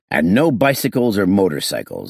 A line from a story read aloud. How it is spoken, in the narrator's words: added sternly